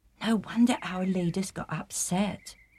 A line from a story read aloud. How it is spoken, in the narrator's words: said almost in a whisper